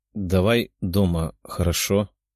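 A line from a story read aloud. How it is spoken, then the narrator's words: Tired voice. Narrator (Russian): усталым голосом ответила она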